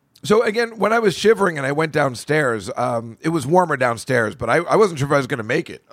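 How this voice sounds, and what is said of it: Hoarse, fading voice. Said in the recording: “I'm losing my voice because I was screaming at the Nets game last night.”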